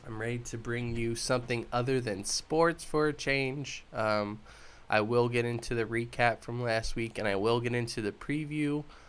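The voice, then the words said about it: Congested, stuffy-nosed voice. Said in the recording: “I have a stuffy nose... I'm all clogged up.”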